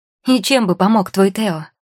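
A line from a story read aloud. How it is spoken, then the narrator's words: Snapping. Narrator (Russian): огрызнулась Маргарита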